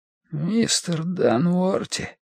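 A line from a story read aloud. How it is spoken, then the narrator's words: Weak, wheezing voice. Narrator (Russian): просипел слабым голосом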